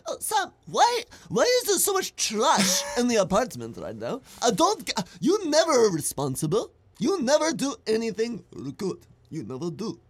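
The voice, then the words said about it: Put-on Armenian accent, overdramatic. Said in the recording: “I'm going to do an accent. So my roommate is Armenian, and he goes like this... Probably way over dramatic”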